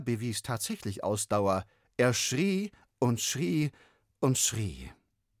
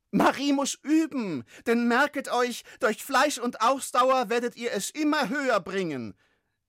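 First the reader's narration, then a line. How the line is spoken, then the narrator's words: Calling over screaming. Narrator (German): rief er ihnen über Ferdinands Geschrei zu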